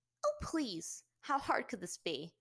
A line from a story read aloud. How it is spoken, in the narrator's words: Azula scoffed